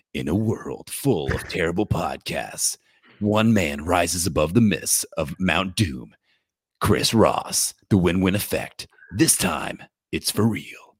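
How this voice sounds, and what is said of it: Dramatic movie trailer narrator voice. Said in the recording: “I do like the movie intro voice”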